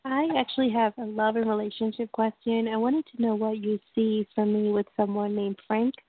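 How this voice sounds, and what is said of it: Congested, stuffy voice. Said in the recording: “I have a cold.”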